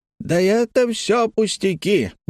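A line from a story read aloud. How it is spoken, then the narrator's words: Exclaimed. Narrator (Russian): воскликнул Хэммонд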